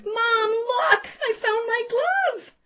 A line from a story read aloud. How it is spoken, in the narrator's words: Shrieking with delight, pride written all over her face, exclaimed